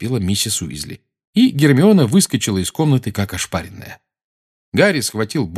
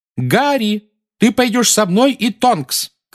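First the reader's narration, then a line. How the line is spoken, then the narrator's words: Shouting over shrieking. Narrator (Russian): крикнула миссис Уизли поверх нескончаемого визга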